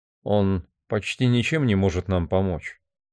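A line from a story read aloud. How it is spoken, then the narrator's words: Plain. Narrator (Russian): сказал Барни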